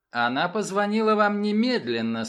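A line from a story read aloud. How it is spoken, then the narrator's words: Dry remark. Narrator (Russian): сухо заметила София Атвуд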